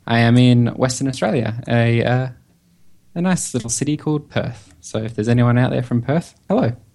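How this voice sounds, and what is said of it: Australian accent. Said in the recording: “being in Australia, as you probably have guessed by my accent”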